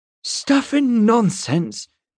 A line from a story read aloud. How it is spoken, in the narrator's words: Miss Avocet cried